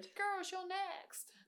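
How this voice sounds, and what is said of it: Put-on accent. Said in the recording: “What is that accent?”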